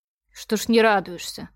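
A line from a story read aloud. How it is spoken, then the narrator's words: Grumbled. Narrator (Russian): буркнула я ей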